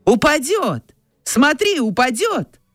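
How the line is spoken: Sudden shout. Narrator (Russian): закричал вдруг велосипедист

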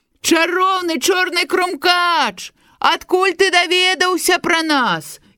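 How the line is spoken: Toys shouting in surprise. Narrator (Belarusian): здзівіліся казачныя цацкі і крыкнулі

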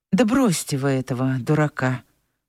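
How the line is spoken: Weary. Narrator (Russian): устало сказала Анфиса

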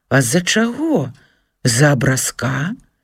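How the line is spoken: Sly smile. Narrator (Belarusian): Микола хітравата усміхнуўся

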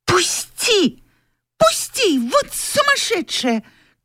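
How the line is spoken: Struggling shout. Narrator (Russian): крикнула Тося, вырываясь из непрошенных объятий

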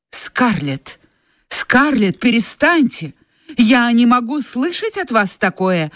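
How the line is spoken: Exclaiming. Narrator (Russian): воскликнул Эшли

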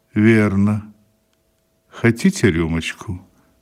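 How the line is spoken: Stunned, slow. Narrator (Russian): мадам Буше остолбенела, медленно произнесла

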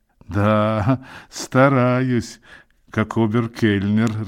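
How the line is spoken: Laughing. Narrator (Russian): рассмеялся Равик

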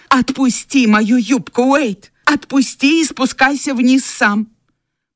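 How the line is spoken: Angry shout. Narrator (Russian): она сердито крикнула ему

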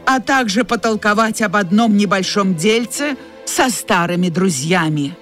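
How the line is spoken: Hissing. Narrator (Russian): прошипел он

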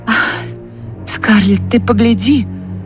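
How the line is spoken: Trembling female voice. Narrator (Russian): проговорила она дрогнувшим голосом

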